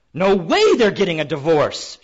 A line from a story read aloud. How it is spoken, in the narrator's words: she shouts